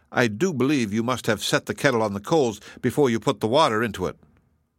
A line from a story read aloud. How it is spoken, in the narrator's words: he exclaimed